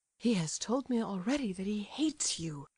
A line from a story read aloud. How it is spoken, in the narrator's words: murmured Aglaya, scarcely audibly